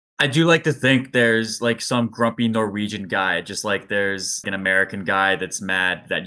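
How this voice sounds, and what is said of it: Usual voice. Nothing is said of it.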